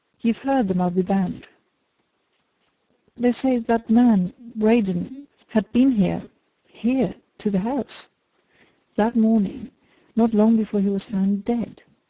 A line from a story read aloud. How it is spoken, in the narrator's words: answered Dick